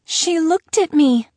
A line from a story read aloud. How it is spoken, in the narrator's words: Lily gasped